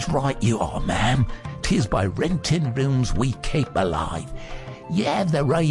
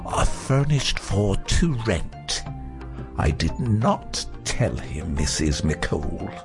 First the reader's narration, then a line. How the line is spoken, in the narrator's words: Purdy in her furriest tones